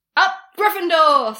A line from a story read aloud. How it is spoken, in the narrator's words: Sirius cried